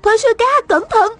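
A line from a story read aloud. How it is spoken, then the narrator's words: Urgent cry. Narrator (Vietnamese): An Tiểu Huệ vội kêu lên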